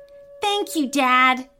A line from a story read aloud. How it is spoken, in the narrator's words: Terrence said happily